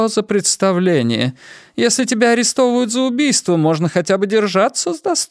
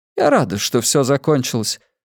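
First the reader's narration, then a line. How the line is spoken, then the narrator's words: Sighing, added. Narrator (Russian): Она вздохнула и прибавила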